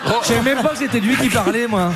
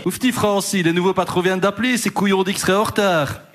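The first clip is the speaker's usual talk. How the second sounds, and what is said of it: Weak attempt at Liège Belgian accent. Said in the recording (French): “C'est quoi cet accent de Liège? ... je ne sais pas faire l'accent liégeois ... C'est entre Liège et Bruxelles”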